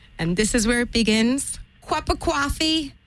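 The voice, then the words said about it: Put-on New York American accent. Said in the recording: “best impersonation of an American accent ... So she likes a New Yorker.”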